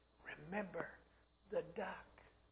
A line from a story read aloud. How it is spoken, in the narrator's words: again she whispered into his ear